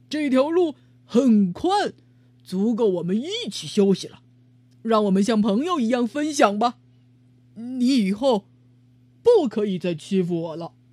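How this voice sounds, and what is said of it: Loud, courageous declaration. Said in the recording (Chinese): “鼓起勇气，大声对河马说”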